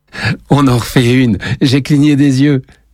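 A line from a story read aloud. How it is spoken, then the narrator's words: Exclaiming. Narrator (French): s'exclame Lenny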